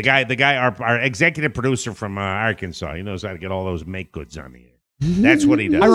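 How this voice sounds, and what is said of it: Usual voice. Nothing is said of it.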